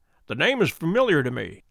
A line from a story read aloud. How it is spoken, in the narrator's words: said he